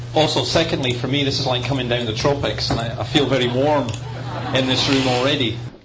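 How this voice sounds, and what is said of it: Scottish accent. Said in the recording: “I hope I don't need a translator for my accent. English as she should be spoken from Scotland.”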